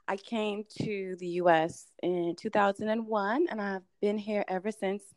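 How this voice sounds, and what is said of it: Slight Bahamian accent. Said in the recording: “if you hear a little bit of an accent, that's because I hail from the Bahamas”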